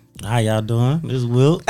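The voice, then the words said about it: Put-on sexy voice. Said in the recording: “He gave y'all the sexy voice.”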